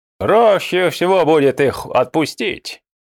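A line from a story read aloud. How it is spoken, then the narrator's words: Snorted. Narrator (Russian): фыркнул Ильтакели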